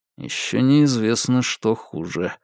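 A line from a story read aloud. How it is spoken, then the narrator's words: Gloomy joke to himself. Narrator (Russian): мрачно пошутил он сам с собой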